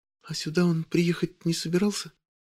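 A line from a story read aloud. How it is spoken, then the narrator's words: Very quiet question. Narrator (Russian): Она спрашивает это совсем тихо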